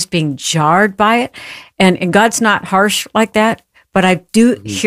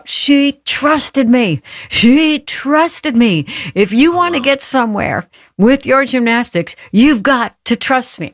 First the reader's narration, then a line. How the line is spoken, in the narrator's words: he yells out